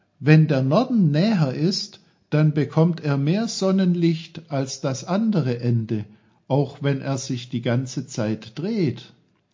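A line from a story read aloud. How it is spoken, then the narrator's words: Called. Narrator (German): rief Peter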